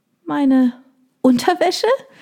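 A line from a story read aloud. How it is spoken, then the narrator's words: Squeaky question. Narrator (German): fragte ich piepsig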